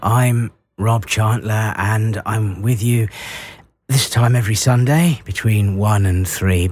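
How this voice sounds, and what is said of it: Worn-out, deep, strained voice. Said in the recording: “as I'm sure you can hear, my voice is on its last legs ... hopefully my voice will get a chance to recover ... apologies if I sound like Willard White this week”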